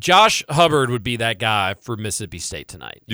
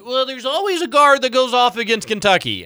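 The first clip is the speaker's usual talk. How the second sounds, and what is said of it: Mocking imitation of his own voice. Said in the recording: “I'm mocking myself. That's me. I'm doing an impersonation of my own voice.”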